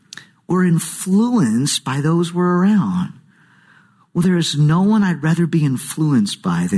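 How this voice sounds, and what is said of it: Usual voice. Nothing is said of it.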